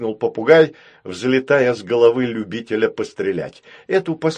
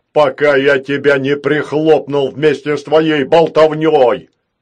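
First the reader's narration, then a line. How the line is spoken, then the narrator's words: Robot suddenly barking. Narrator (Russian): рявкнул вдруг робот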